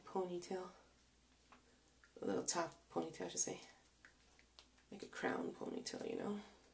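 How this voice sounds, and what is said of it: Breathless, tired-sounding speech. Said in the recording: “I'm out of breath. Just talking, I'm out of breath. ... tired and fatigued I am today. ... Just in talking, I'm really tired.”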